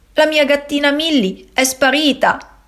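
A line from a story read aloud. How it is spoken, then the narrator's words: Sobbing. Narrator (Italian): singhiozza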